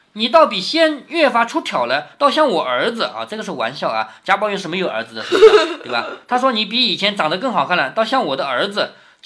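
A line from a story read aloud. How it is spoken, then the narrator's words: Laughing. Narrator (Chinese): 宝玉笑道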